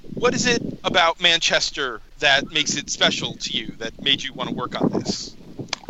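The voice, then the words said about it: New Jersey accent. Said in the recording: “my, horrible New Jersey accent”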